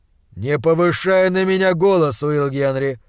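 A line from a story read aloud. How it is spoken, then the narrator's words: Calm warning. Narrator (Russian): спокойно предупредил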